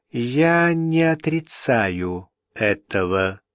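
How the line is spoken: Slow. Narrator (Russian): медленно ответила Джен Палли

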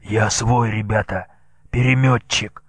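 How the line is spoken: Hoarse. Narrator (Russian): татарин шумно вздохнул, закашлялся, потом снова хрипло сказал

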